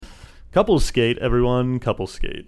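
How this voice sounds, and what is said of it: Skating rink DJ voice. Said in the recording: “that's my skating rink DJ voice”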